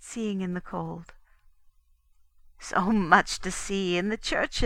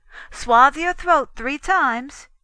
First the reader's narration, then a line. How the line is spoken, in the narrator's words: she cried